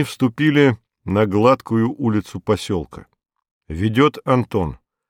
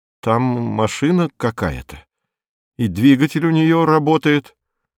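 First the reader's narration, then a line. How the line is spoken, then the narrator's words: Bewildered. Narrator (Russian): Антон растерянно произносит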